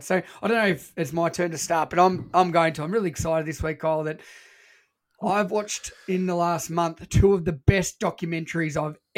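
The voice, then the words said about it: Voice in bad, worsening condition. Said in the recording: “My voice is getting worse... My voice is that bad.”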